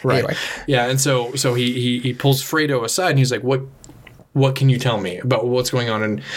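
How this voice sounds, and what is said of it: Usual voice. Nothing is said of it.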